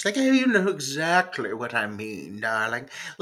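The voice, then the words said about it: Elegant British accent. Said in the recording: “She's got an elegant British accent.”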